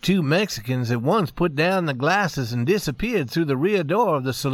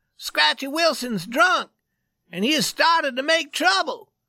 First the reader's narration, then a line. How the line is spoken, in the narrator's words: He cried